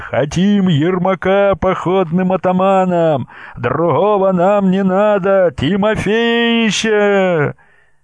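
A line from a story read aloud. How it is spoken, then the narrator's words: Reasonable. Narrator (Russian): сказал резонно Исаул Суриков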